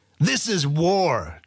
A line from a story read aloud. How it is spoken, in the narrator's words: Chorkinton bellowed